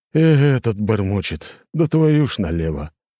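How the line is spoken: Tired exhale. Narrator (Russian): Устало выдохнул Петренко

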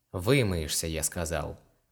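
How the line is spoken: Sighed. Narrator (Russian): вздохнул Илар

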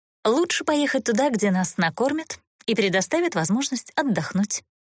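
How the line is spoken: Calm, mocking. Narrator (Russian): Не скрывая насмешки, спокойно ответила Эста

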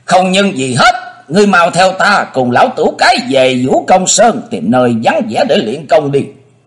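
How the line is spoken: Laughing loudly, interrupting. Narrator (Vietnamese): Thần Nhất Tỷ cười lớn ngắt ngang lời chàng

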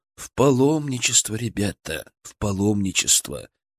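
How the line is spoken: Serious tone. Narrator (Russian): серьезным тоном произнес я

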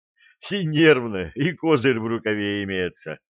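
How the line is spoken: General after laughing. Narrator (Russian): генерал, отсмеявшись

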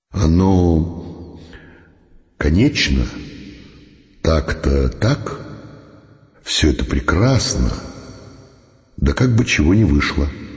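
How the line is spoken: Quiet. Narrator (Russian): говорил тихо

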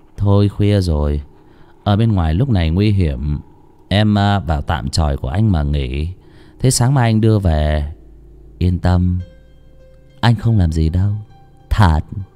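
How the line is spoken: Soft, gentle. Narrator (Vietnamese): thằng Anh khẽ nói

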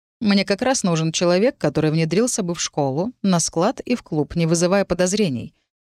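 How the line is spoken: Calm explanation. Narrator (Russian): спокойно пояснил Джон Ллойд

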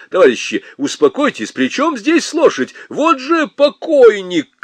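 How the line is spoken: Shouting. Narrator (Russian): кричал он

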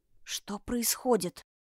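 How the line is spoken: Whisper. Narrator (Russian): шепнула она

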